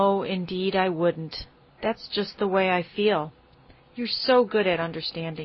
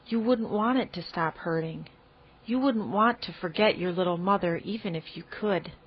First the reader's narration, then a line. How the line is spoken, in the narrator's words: said Anne very softly